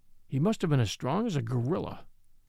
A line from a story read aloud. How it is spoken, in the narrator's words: he muttered